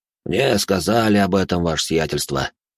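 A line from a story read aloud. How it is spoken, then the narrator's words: Sighing man. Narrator (Russian): вздохнул он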